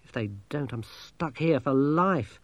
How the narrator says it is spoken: said Masklin bitterly

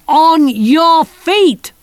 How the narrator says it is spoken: shouted Kirsty

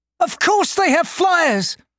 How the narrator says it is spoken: she yelled

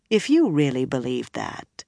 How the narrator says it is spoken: Swan said calmly

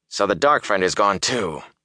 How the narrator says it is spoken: he growled

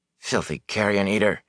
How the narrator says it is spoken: he muttered

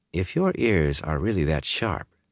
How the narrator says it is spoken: she said calmly

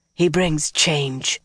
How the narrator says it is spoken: Melaine whispered harshly

